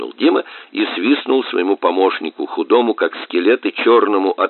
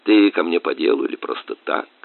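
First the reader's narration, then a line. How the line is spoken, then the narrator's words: Casual question. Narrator (Russian): спросил он небрежным тоном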